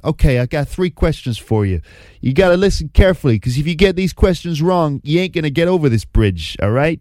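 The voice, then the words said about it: Danny DeVito, Italian-American accent impression. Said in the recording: “That is quite a good Italian-American accent, even though that's not normally how you speak, Danny DeVito.”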